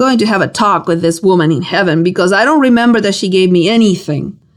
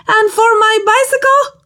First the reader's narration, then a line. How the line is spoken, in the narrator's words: With all the volume my little lungs could master, I yelled in utter desperation